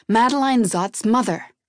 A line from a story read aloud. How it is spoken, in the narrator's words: barked back